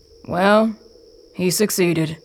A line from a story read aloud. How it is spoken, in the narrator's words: someone else says